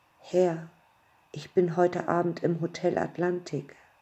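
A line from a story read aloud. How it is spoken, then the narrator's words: Breathy voice on phone. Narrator (German): die Stimme am anderen Ende haucht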